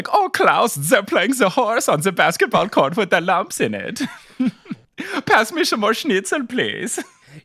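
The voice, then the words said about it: Put-on German accent. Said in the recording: “Your German accent is unparalleled. It cannot be peached.”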